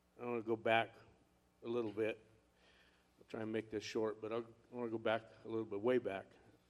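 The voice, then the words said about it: Choked-up, emotional voice. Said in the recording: “I get a little choked up when I talk about this”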